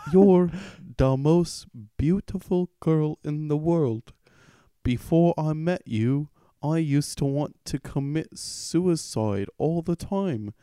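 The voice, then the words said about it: Put-on accent while reading. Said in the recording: “this accent is hard with this kind of thing”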